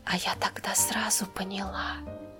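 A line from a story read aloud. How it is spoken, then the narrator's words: Whisper. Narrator (Russian): прошептала она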